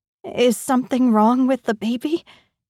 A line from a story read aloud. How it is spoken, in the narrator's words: My words come out shakily